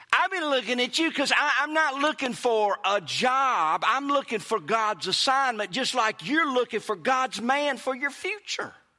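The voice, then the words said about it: Mississippi Southern accent. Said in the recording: “I'm talking like Mississippi again ... people make fun of my accent ... it's kind of kicking in a little bit”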